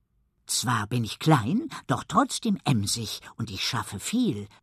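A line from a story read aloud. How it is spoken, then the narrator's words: Proud whisper. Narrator (German): flüstert Elli stolz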